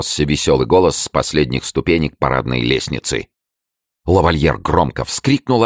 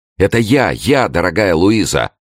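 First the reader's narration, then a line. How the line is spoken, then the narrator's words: Eager exclamation. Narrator (Russian): взбегая, воскликнул Рауль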